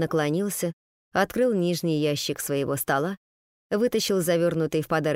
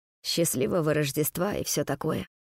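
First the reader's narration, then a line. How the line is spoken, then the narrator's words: Awkward mumble. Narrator (Russian): неловко пробормотал он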